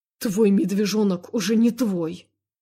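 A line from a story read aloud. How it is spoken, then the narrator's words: Angry rebuke. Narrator (Russian): Зло одернул ее Любомир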